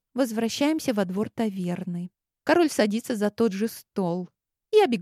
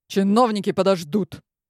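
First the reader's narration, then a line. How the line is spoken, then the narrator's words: Sharp. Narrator (Russian): Резко отвечает Анри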